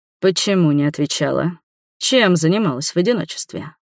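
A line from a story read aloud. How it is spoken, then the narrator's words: Deep guttural growl. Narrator (Russian): Вампир утробно зарычал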